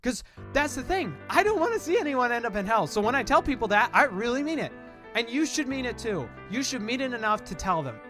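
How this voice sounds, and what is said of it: Loud, fiery preacher-style yelling. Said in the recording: “my yelling voice, my preacher voice. I'm getting into that. ... so I get on fire”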